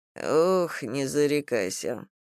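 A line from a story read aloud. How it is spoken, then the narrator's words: Sigh. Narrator (Russian): вздохнул Логов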